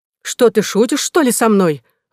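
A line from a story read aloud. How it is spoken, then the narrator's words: Exclamation. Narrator (Russian): воскликнула леди Локливен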